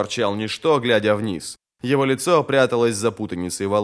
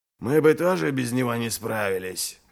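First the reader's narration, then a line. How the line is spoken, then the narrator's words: Muttered. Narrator (Russian): пробормотал Ральф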